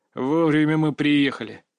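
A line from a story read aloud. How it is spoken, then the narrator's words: Muttered through teeth. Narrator (Russian): процедил Львов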